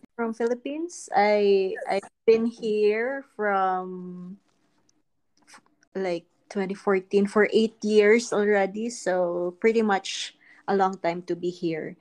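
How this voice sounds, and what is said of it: Filipino accent. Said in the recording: “I can hear your accent.”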